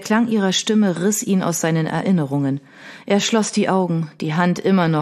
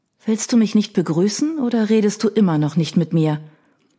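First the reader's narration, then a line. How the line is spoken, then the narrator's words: Singsong, warm and soft. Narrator (German): Der singende Tonfall schien sich in eine warme, weiche Hand zu verwandeln, die sanft über seinen Rücken strich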